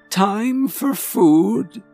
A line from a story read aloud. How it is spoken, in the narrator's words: She said in a trembling voice